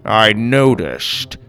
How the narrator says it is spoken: Grandpa grumbled

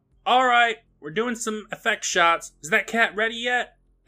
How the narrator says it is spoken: The assistant yells out

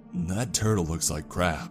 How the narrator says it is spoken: he says gruffly

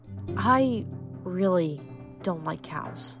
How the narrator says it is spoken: Piper muttered

